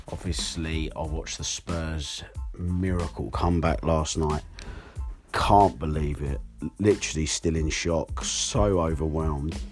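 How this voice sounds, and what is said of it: Hoarse voice. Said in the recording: “Allow my voice because I lost it screaming at Spurs yesterday. ... excuse my voice, I'm a bit hoarse”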